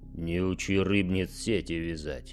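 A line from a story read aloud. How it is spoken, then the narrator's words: Reproachful mutter. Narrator (Russian): укоризненно буркнул чемпион Дорна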